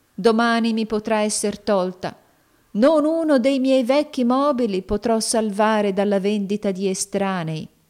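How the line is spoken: Poor man sighing. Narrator (Italian): sospirò il poveretto

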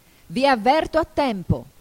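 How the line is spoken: Queen shouting. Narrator (Italian): gridò la regina

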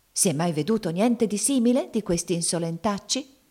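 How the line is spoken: Shouting, secretly satisfied. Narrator (Italian): gridava la zia Chloe con una segreta soddisfazione

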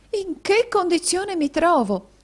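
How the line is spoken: Exclaiming. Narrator (Italian): esclamò la signorina Squeers

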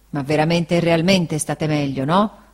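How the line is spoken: Grumbled. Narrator (Italian): brontolò Barkis

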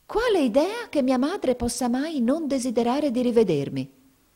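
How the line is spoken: Flustered exclamation. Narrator (Italian): esclamò Mamie, diventando di porpora in viso

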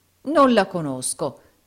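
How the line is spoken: Exclaimed. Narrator (Italian): esclamò il baronetto Mulberry Hawk

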